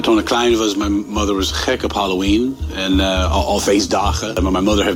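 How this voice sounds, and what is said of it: American accent speaking Dutch. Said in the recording (Dutch): “wat een heerlijk Amerikaans accent.”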